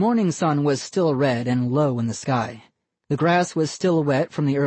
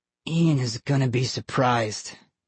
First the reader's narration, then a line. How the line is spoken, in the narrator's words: Johnny murmured